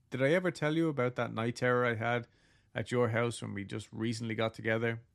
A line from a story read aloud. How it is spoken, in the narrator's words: I asked him with a little laugh